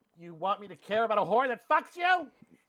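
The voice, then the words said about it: Imitates another person's voice. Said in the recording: “my Edie Falco, my Edie Falco impression. ... Not bad.”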